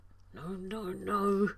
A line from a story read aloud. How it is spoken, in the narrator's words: John mumbled